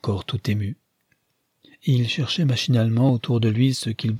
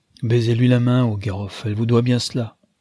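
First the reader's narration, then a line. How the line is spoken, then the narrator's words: Plain. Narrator (French): dit M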